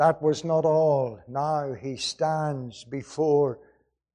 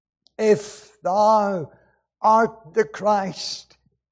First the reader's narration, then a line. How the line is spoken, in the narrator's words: cried the thief on the cross